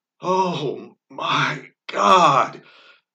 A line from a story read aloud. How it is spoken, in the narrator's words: she exclaimed